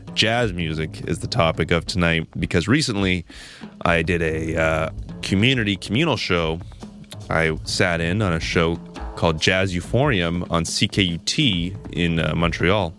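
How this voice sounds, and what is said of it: Congested, slightly altered voice. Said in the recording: “you sound a little different... I have a bit of a cold”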